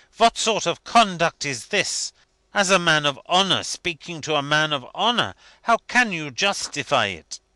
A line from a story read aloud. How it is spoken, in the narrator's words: he exclaimed indignantly